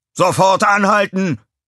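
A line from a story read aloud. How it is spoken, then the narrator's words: Roared. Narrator (German): brüllte er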